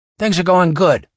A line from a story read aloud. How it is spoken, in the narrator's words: Ralph said cheerfully